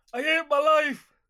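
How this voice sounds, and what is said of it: Impression of Deirdre Rashid. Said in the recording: “doing an impression of Deirdre Rashid”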